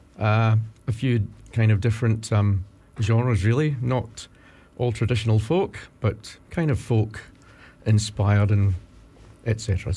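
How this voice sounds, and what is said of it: Scottish accent. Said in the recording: “you know that I'm Scot by my accent.”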